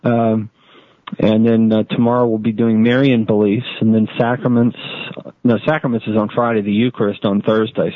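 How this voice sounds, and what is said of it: Rough, strained voice. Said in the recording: “my voice sounds a little rough”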